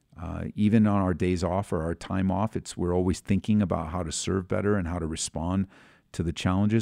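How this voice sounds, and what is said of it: Tired, weary-sounding voice. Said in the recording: “You might be able to hear in my voice, I'm extremely tired.”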